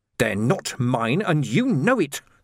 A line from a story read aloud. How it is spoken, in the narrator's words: the man snarled